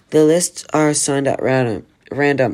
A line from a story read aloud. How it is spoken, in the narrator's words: Sir Aston stammered